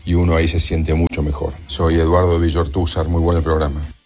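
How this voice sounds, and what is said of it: Deep radio announcer voice. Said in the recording (Spanish): “tenés una voz de locutor ... Voz ronca ... es buena la voz”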